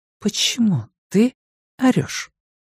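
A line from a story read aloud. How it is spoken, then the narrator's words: Soft question. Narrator (Russian): мягко спросила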